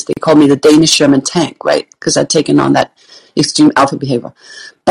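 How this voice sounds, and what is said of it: Danish accent. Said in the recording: “I'm Danish, if you hear an accent, that's what it is.”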